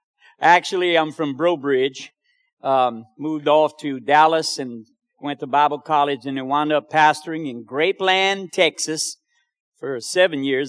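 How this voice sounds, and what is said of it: New York accent. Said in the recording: “I'm from New York. You can tell by the accent.”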